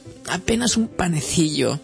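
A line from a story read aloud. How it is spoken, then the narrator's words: Moaning. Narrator (Spanish): gimió Herbert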